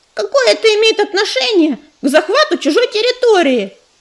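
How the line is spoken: Ringing shout. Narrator (Russian): звонко выкрикнула белка

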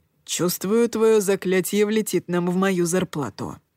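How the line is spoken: Grumbling. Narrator (Russian): пробурчал он

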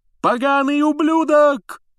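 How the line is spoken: Yelling. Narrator (Russian): завопил Ли Джордан

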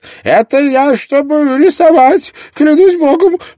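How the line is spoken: Shout. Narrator (Russian): прокричал Квенс

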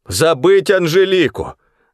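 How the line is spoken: Shouted. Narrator (Russian): закричал Ларе

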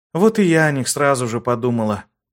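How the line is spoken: Heavy sigh, confirming. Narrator (Russian): тяжело вздохнув, подтвердила Нисе

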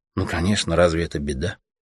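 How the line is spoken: Quiet, iron-firm. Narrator (Russian): тихо и железно ответила ему Аня

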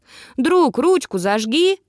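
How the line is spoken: Shout after someone. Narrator (Russian): крикнул ему в спину Дин

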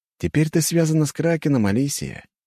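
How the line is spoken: Pleased tone. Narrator (Russian): говорит Джон довольным тоном

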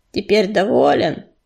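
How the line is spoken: Grumbling. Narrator (Russian): проворчал он

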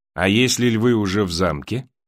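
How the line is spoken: Plain. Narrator (Russian): сказал Том

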